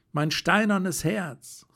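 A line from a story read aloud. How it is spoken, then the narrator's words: Exclamation. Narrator (German): rief ich aus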